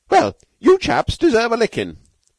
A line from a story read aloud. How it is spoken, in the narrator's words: cried one Norton incautiously